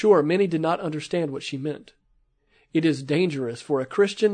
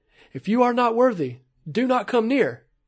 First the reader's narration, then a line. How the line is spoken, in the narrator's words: a sister, led by the Spirit of God, shouted and said